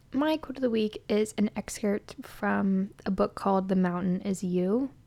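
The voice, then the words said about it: Rough, strained sick voice. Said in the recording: “My throat has been acting up for the past week... it was kind of going in and out... I'm getting hit with a cold... apologize for my voice. It's probably not the best to listen to”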